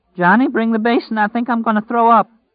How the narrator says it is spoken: she cried

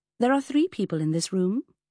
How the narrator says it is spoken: smiled sweetly

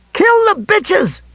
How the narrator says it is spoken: Pickering screamed

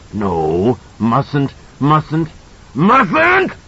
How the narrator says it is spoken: It shrieked

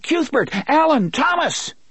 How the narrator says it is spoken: His scream sounded puny and thin in the heat

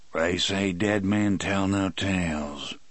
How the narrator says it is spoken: Brutal rumbled

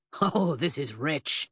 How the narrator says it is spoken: the man chuckled

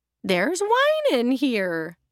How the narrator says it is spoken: Estelle exclaimed happily

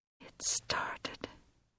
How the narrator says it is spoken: she whispered

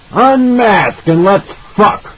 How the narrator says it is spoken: A hoarse voice, made brutal with drink, shouted

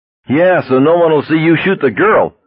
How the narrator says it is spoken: a hysterical voice yelled

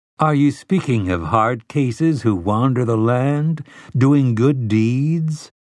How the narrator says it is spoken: Telford asked in a gently mocking voice

